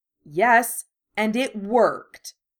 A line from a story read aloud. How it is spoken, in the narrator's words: Harry snapped